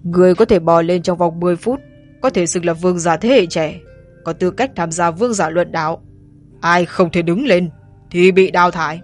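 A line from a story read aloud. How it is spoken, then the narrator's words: Deep booming statue voice. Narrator (Vietnamese): Thánh tượng ồm ồm nói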